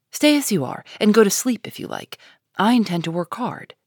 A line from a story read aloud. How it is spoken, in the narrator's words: said Amy, in her most energetic tone